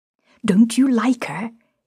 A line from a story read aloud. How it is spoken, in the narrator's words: would demand rather excitedly and shyly